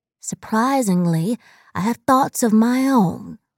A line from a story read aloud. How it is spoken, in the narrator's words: she said